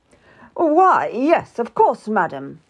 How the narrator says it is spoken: spluttered

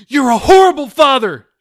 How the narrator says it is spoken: She screamed

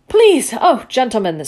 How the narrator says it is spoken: said the mayor angrily

